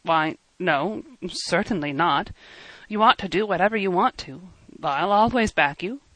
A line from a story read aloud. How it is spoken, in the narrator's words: said in an embarrassed tone